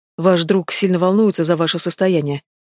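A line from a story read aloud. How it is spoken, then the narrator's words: Through gritted teeth. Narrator (Russian): сквозь зубы произнесла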